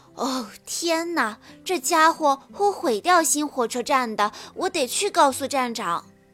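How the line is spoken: Shouted. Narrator (Chinese): 托马斯大叫道

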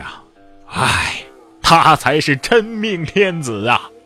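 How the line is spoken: Sighing. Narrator (Chinese): 裘冉克就叹息说

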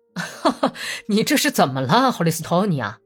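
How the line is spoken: Laughing question. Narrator (Chinese): 毕德罗笑着问

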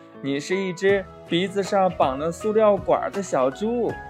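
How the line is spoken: Kangaroo laughing loudly. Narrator (Chinese): 袋鼠大笑着说

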